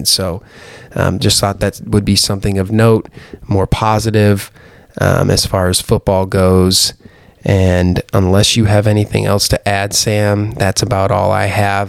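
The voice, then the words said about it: Raspy, strained voice. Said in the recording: “That's about all my raspy voice can handle tonight.”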